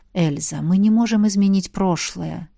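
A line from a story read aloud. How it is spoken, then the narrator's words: Dragon whispering. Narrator (Russian): прошептал дракон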